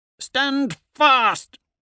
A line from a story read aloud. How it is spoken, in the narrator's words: I roar at my veterans